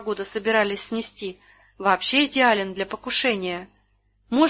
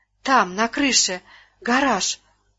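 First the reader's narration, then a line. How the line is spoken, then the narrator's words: Whispered shout. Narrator (Russian): шепотом крикнула она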